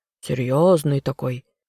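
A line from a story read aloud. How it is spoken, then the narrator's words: Snorting. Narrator (Russian): фыркнул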